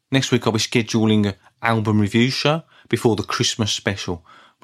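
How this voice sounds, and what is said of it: Birmingham accent, flat delivery. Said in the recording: “you can't tell from my Brummie accent. My levels of excitement may seem quite static throughout the show”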